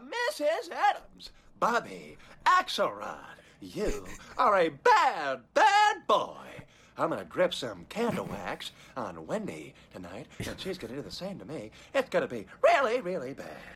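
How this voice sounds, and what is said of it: Bad Paul Giamatti impression, all over. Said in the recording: “he does Paul Giamatti impressions ... It's so bad. ... He reminds me of Jim Carrey. ... That voice is just, like, all over the place. Like, Jim Carrey.”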